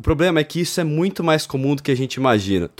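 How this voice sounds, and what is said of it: Mock lecturing macho man voice. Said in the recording (Portuguese): “imitando o macho palestrinha”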